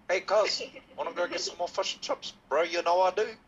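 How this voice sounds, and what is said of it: Put-on New Zealand accent. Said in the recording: “let's just say you think of a New Zealand ... Just go, fosh and chops”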